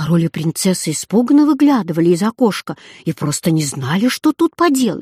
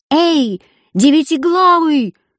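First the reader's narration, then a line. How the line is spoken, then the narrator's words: Younger brother shouting. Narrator (Russian): закричал младший брат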